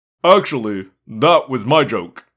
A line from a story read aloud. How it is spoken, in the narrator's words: Prince Jake said stiffly